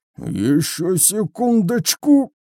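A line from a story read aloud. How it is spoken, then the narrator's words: Strained hoarse voice. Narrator (Russian): прохрипел Мульч, чувствуя, как от напряжения приливает к щекам кровь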